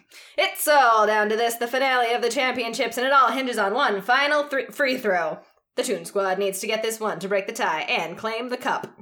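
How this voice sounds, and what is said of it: Sports announcer voice. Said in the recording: “do my announcer voice, which is going to be bad”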